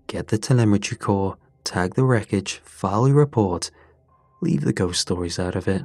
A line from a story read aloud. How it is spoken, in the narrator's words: the rep said, his tone already checked out